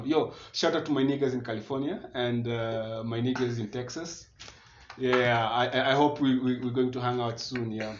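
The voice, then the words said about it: Put-on changed accent. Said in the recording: “his accent changed ... you don't talk like this”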